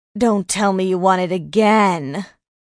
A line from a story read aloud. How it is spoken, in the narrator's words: Mitch groaned